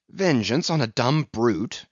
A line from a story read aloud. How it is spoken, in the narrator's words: cried Starbuck